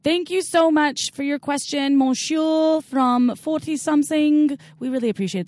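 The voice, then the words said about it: Put-on French accent. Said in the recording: “That's my best French accent for the day”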